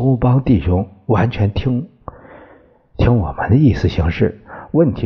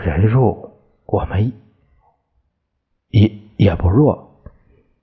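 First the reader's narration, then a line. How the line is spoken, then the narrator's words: Stammering. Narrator (Chinese): 陈布雷结结巴巴说到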